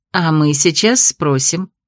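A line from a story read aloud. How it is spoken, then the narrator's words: Soft. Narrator (Russian): мягко произнесла Костина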